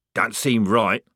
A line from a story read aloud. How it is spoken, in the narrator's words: muttered Strappy